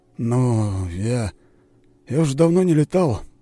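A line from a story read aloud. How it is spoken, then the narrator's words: Hesitant mutter. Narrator (Russian): неуверенно пробормотал он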